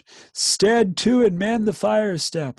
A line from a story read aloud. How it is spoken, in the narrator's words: On he went, gasping and bawling